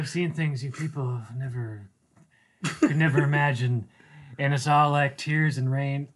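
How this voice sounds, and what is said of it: Impression of Roy Batty's monologue. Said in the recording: “doing an impression. ... That was not an audio clip of the actual ... monologue. ... how close it was and how confusing that was.”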